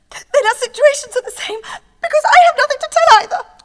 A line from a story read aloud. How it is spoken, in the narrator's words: sobbed Marianne